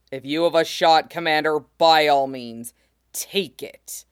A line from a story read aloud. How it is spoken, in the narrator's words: He snarls, but says